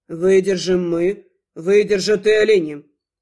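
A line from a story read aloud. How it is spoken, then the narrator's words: Calm declaration. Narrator (Russian): Спокойно заявил мой неожиданный муж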